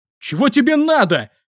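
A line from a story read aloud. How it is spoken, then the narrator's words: Shouting. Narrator (Russian): закричал я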